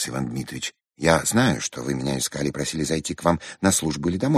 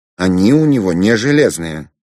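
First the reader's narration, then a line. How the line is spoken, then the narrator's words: Angry. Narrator (Russian): сердито сказал Рябинин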